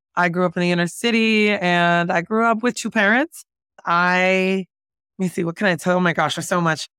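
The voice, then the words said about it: Jersey City New Jersey accent. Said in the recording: “we're kind of like the Jersey New Yorkers, if you cannot hear it from my accent.”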